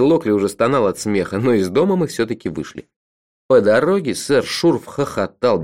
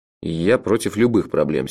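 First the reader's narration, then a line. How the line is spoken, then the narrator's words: Angry. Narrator (Russian): сердито сказал я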